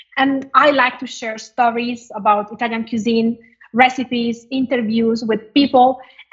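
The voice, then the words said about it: Italian-accented English. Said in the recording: “I speak with an Italian accent”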